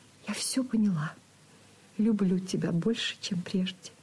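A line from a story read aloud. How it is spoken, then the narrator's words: Quiet whisper. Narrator (Russian): тихо шепнула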